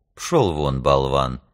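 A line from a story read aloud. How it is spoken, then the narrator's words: Soft voice. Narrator (Russian): мягким голосом отозвался Капрал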